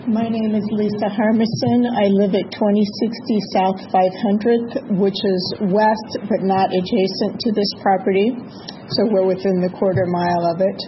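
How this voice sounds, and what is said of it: Weak voice from illness. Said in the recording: “I don't have a very strong voice because of the bug I'm getting over”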